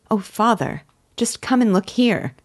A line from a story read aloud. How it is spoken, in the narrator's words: she exclaimed